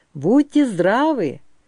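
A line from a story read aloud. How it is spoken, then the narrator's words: Joyful greeting. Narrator (Russian): радостно приветствовал их Бессон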